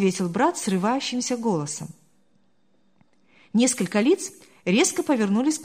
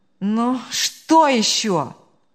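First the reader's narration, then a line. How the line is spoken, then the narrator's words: Groaning exclamation. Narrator (Russian): он со стоном воскликнул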